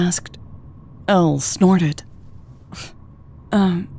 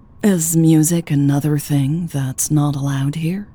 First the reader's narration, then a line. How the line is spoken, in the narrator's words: asked dryly